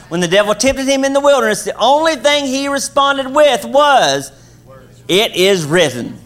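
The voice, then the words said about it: Kentucky accent. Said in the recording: “She's in Kentucky, where I'm from. That's where the accent's from”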